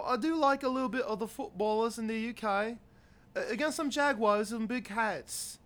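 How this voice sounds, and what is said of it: Put-on British accent, unconvincing. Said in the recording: “your English accent is garbage ... It's more of an Edinburgh.”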